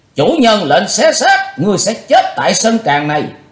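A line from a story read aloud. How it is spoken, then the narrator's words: Loud group shout. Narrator (Vietnamese): Cả bọn đồng thời quát to lớn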